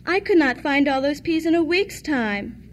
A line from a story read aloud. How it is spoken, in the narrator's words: sighed